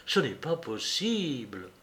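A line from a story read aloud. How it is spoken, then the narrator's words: Murmured. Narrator (French): murmurait-il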